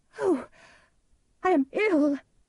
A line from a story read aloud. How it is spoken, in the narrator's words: she cried